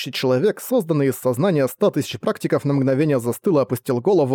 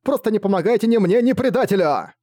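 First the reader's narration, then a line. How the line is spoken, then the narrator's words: Shouting. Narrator (Russian): прокричала Фэн Цзюань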